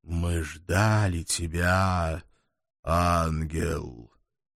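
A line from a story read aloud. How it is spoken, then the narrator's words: Strange melodic operatic voice. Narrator (Russian): Странным, мелодичным, почти оперным голосом начал тот, что стоял в середине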